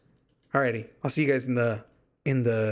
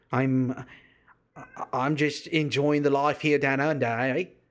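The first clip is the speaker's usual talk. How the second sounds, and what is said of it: Bad put-on Australian accent. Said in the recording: “Terrible. I'm telling you, terrible Australian accent. So terrible.”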